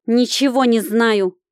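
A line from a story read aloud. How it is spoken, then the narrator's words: Snapping retort. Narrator (Russian): огрызнулась Прохоровна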